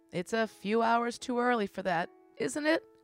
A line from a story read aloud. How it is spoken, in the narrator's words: Crowley laughed, and then he was crying too